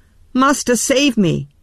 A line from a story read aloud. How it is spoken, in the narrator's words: he cried